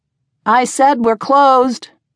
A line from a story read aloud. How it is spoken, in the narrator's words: called out again, her voice loud and cold